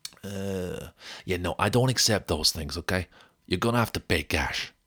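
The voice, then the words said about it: Put-on Italian accent. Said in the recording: “Let me try another accent. ... Oh, is that Italian? That's Italian.”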